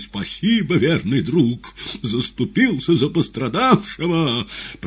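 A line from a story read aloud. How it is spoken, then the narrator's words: Tragic exclamation. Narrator (Russian): воскликнул трагически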